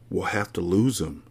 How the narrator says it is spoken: Tim whispers back

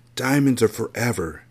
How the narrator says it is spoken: she whispered as she wiped away her tears

